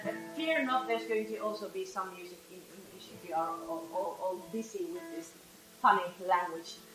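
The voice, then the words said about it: Speaks English with a foreign accent. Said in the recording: “with, with my accent.”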